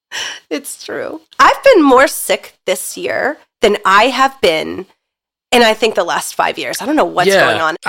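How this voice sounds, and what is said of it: Congested head-cold voice. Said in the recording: “the way you said head cold was the cutest thing ... you like left the L out completely, but it was just the cold ... Philadelphia / cold accent that you have right now”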